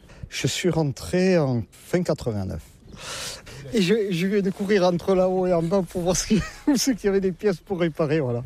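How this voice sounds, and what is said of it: Southwestern French regional accent. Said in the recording (French): “comme vous l'entendez, je ne suis pas de la région ... Avec mon accent, je ne suis pas du Nord-la-Loire, non. Je suis des Landes”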